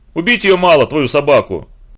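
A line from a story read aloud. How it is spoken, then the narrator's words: Sudden terrifying bark. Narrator (Russian): рявкнул вдруг Витька таким голосом, что у самого закоренелого людоеда мороз бы пошел по коже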